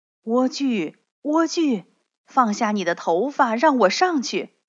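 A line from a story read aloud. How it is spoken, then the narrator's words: Prince calling out. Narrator (Chinese): 王子叫着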